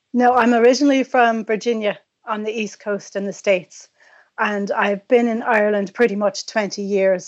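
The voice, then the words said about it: Partial Irish accent. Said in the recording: “you have a good Irish accent, but it's not a full Irish accent.”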